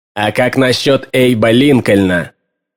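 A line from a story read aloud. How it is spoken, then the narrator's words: Cold retort. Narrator (Russian): холодно парировал Диз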